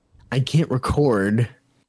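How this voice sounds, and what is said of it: Whispering. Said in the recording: “Why are you whispering now?”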